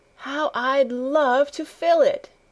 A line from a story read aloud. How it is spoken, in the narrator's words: she exclaimed